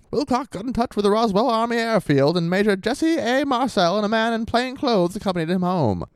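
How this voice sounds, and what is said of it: Put-on transatlantic accent. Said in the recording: “really tempting to read all this newspaper article quotes in transatlantic accent”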